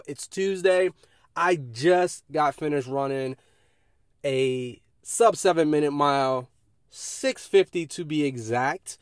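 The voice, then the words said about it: Excited, energetic voice. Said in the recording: “I'm not sure if you can hear it in my voice, but I am so jacked up right now.”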